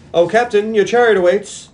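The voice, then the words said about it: British accent. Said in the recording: “his Face in a British accent.”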